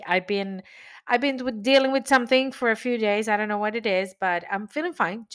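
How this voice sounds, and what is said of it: Nasal, congested voice. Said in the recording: “My voice is a little bit under the weather today... you will probably hear a little bit different, more nasal”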